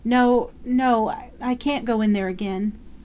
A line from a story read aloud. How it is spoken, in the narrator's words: shuddering, crying in a child's whimper